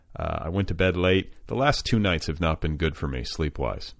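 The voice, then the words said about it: Tired, fatigued voice. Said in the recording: “I'm a little sleep deprived. Can you hear it in my voice? Do you hear the fatigue?”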